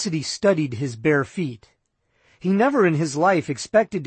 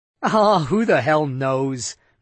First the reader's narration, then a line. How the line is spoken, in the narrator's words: Meisner laughed